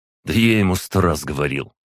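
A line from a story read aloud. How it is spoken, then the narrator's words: Scoffing snort. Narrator (Russian): хмыкнул на этот Агай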